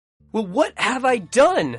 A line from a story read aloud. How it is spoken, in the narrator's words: He screamed at his father